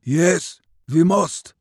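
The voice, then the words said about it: Russian accent. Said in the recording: “Its Russo-Siberian accent cut through the night.”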